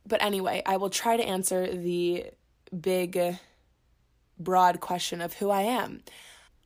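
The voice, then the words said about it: Nasal, sick-sounding voice. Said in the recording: “if my voice sounds a little nasally. I am a little sick.”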